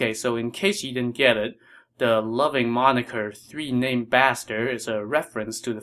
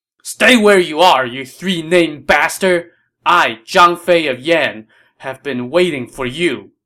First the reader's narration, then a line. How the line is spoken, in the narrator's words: This warrior roared